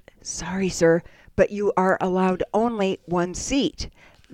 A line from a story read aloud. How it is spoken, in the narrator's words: He whispered